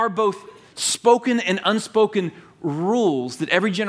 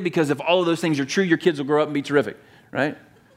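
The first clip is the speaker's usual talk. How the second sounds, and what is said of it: Sarcastic tone. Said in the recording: “I mean, I'm being sarcastic”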